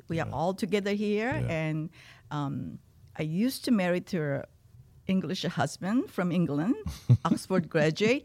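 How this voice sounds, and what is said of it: Non-native English accent. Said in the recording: “people thought that I was making up as a recovering tiger mob using my accent. No, that's me.”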